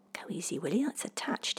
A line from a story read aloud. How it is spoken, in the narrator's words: he muttered